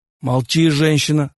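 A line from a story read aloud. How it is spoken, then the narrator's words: Husband's growl. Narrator (Russian): зарычал на нее муж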